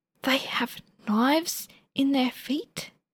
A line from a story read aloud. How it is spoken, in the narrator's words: Frenchie confides in a stage whisper